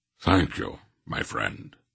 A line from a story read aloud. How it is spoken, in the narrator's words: Wolf said gravely